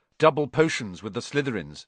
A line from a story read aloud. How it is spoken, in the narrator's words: said Ron